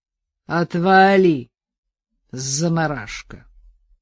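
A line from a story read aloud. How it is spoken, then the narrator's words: Careless drawl through teeth. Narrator (Russian): небрежно процедил Валера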